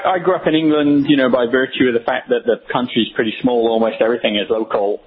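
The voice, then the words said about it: English accent with Australian influence. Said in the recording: “Your background, obviously Australian or South African? I've got South Africa in your voice... I'm actually English, although my wife is an Aussie... you may well be hearing some of that antipathy in my accent... You got a little influence there.”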